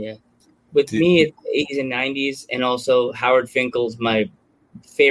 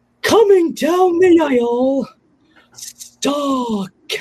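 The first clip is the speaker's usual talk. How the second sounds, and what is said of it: Imitates another person's voice. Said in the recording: “do my Howard Finkel voice ... I'm about to give you the Howard Finkel treatment”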